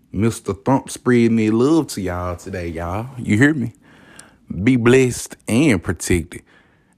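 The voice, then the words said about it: Southern American accent. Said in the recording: “I'm from the South, so you better love this hospitality that I'm speaking to you today with. Yeah, I'm from the South, man. You don't know? Hear it in my voice.”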